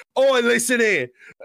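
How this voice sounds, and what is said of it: Put-on Cockney accent. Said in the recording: “Some random Cockney guy, because that's the accent I can do.”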